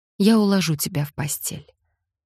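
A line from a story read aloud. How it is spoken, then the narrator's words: Soft. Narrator (Russian): мягко сказала Франческа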